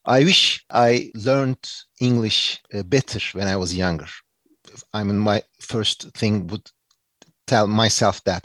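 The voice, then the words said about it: Turkish-accented English. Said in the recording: “because I have Turkish English accent”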